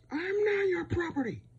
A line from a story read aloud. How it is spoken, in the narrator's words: I scream